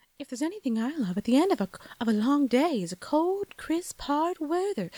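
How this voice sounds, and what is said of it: 70s Southern British accent. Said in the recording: “that 70s accent, British, Southern British accent”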